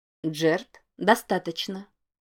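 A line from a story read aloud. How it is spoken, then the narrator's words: Quiet voice. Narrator (Russian): тихо произнес чей-то голос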